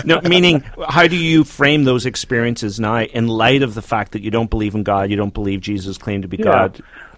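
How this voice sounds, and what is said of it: South Carolina accent. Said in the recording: “He has an accent ... South Carolina.”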